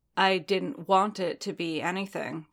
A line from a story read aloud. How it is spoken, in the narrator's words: Din said